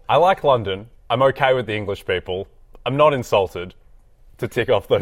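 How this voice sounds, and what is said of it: Australian accent. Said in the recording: “I'm Australian. I talk Australian. ... You have an accent. ... I do have an accent.”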